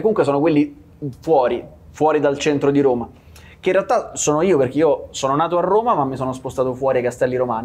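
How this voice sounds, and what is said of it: Roman Italian accent. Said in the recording (Italian): “ti sta venendo fuori l'accento di più mentre parli di Roma”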